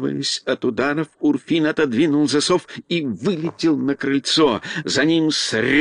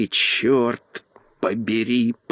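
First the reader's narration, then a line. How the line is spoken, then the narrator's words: Groan. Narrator (Russian): простонал он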